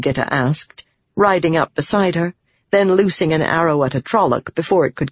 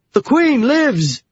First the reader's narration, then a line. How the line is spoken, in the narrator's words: they yelled